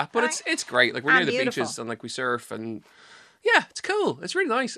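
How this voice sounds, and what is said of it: Dublin Irish accent. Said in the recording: “I've maintained my Dublin accent. ... I'd say you have quite a neutral accent.”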